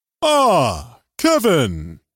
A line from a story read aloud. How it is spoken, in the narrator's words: Reginald exclaimed with a jovial voice